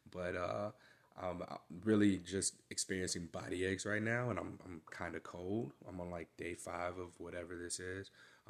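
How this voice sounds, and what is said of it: Sick-sounding voice. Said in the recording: “I'm sick, not sure what it is. You can hear it in my voice.”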